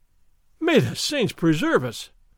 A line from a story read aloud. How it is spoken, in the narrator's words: Don Diego cried